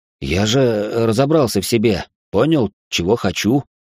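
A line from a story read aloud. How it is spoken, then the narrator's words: Uncertain. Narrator (Russian): неуверенно проговорил Алекс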